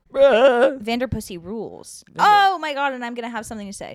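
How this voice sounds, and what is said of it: Loud, screaming voice. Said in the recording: “Sorry, I'm screaming today.”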